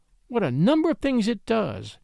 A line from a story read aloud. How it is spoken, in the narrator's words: exclaimed Ethel